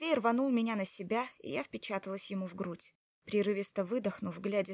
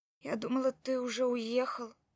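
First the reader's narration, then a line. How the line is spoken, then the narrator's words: Strained, forced out. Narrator (Russian): выдавила я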